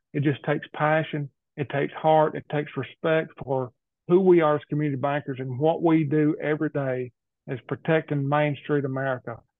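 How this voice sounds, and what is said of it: Northwest Alabama rural Southern accent. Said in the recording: “a rural country boy from Northwest Alabama who's got an accent that sometimes is hard to understand”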